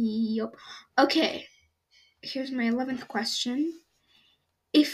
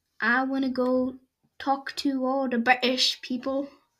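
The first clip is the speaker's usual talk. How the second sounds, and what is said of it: Bad put-on British accent. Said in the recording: “bad British impression.”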